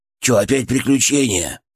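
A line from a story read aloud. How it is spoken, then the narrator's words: Grumbling. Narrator (Russian): проворчал он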